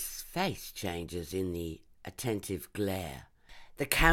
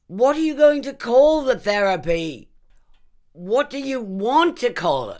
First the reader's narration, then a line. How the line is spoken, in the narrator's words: One reporter manages to shout above the rest